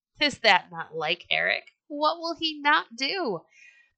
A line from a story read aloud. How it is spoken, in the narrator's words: men laughed and said